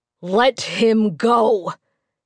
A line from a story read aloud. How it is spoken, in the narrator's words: he said through gritted teeth